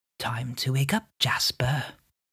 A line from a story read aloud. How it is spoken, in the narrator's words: the voice whispers in your ear and says